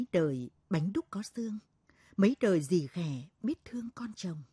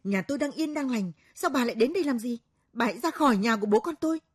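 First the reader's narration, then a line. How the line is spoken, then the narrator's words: Sudden hostile hiss. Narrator (Vietnamese): Nó gườm gườm nhìn cô Thoan, rồi bỗng nhiên rít lên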